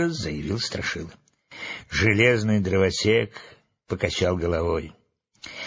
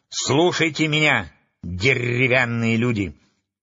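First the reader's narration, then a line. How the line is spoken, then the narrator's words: Loud speech. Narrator (Russian): громко начала она свою речь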